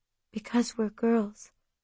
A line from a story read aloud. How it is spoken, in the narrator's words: I whispered